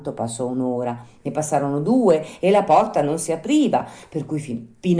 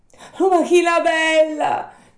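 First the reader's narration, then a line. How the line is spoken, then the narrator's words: Shouting from street. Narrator (Italian): gridò Pinocchio dalla strada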